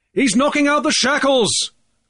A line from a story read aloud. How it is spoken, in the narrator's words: Grief shouted